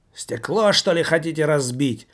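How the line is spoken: Very loud shout. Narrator (Russian): выкрикнула из киоска тетка так громко

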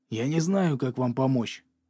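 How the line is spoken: Whisper. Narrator (Russian): зашептал

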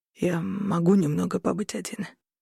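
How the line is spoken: Broken, halting voice. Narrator (Russian): спросил Корнелиус прерывистым надломленным голосом

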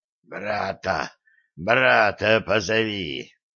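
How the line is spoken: Strained rasp. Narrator (Russian): султан надрывно хрипит

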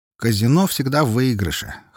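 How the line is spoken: Snort. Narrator (Russian): хмыкнул я

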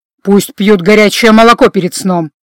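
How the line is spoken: Irritated interruption. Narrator (Russian): раздраженно оборвал его Гордон

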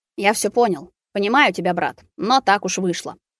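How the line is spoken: Muttering. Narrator (Russian): пробормотал Рус

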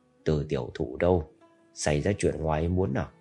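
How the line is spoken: Lowered voice. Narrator (Vietnamese): Tiểu Thiên Chi hạ giọng nói

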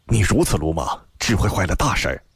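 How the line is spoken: Low voice. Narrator (Chinese): 低声道

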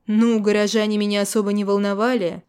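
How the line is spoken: Snort. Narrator (Russian): фыркнул я

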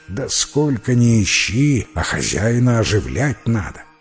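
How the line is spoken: Plain. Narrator (Russian): говорит тогда заяц

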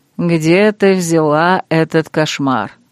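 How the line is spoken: Mocking question. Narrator (Russian): Крейг ... насмешливо спросил

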